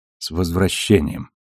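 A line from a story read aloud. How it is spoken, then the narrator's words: Quiet. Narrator (Russian): тихо сказал Арджуна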